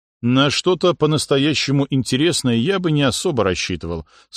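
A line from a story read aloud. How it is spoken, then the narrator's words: Plain. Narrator (Russian): сказал он Нуминориху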